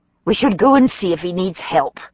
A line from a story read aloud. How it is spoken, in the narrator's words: said irritably